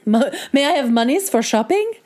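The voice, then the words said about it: Imitates another person's bad accent. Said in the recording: “good impression of her bad accent”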